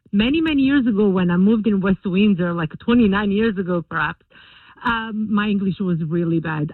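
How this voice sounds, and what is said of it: Non-native English accent. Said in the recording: “I know I still have an accent”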